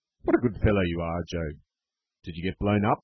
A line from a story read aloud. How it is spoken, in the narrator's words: he added, laughing